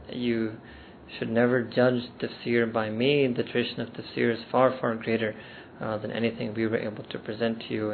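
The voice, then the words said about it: American accent. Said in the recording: “in the American accent that you all love”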